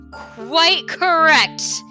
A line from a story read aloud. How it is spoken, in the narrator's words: he shrieked triumphantly